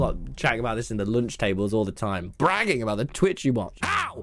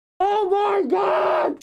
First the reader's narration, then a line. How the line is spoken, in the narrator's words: She screams into her pillow